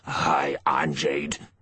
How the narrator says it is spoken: he rasped

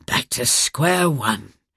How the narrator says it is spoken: he muttered irritably

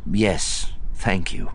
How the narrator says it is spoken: Luke said

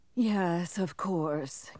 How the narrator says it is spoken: Kellering sighed

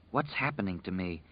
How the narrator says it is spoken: she whispered to the dark

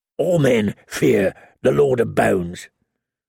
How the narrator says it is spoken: the wildling grumbled

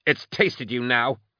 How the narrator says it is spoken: Tchaikov spat

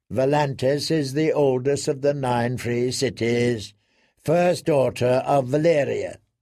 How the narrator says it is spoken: the lad replied in a bored tone

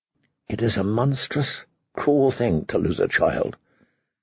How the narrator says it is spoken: she whispered softly, more to herself than to her father

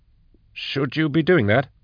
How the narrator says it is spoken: he asked nervously

